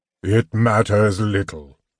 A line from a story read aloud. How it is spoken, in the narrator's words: the sepulchral voice intoned